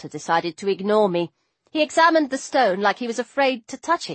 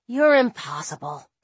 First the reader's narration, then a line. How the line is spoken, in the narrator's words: Carter grumbled